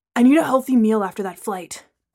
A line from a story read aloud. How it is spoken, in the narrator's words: Braylon panted in between push-ups